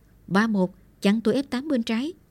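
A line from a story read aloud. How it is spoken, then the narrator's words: Shouting. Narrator (Vietnamese): Lương quát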